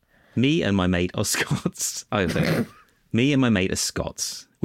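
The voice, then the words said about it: Exaggerated put-on Scottish accent. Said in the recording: “Can you do it in an offensive Scottish accent?”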